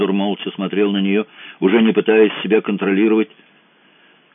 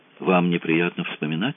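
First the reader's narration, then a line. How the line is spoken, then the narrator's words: Quiet question. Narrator (Russian): спросила Ольга негромко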